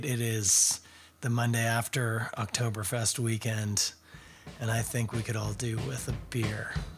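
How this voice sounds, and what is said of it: Husky, rough voice. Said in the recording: “My voice is jazzy at best”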